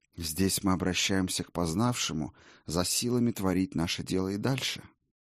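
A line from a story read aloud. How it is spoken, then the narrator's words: Low voice. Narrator (Russian): негромко проговорил Хэнсби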